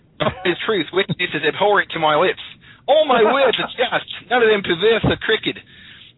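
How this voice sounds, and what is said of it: Poor put-on Australian accent. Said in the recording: “can I do it in an Australian accent? ... Was that good? ... Bad, actually.”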